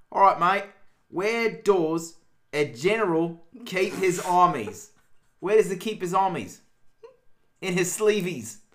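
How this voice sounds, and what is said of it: Put-on Australian accent. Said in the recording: “It was a stupid accent. ... Australian? ... Yes, it was. ... if you didn't have to read an accent.”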